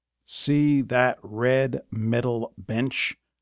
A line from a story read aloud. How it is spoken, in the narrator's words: Coach snarled